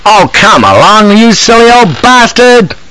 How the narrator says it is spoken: cries impatiently

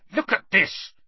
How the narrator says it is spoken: Harry snarled

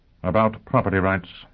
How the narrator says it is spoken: Yang Yovel murmured

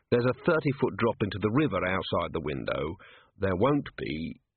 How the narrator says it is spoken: he said, as kindly as possible

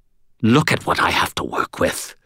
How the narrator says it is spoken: Lady Shade snarled

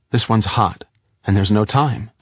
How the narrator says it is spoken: said Wiggin

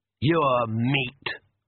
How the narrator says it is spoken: snarled the Count

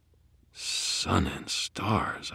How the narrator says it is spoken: breathed

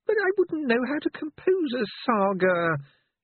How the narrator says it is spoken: said feebly

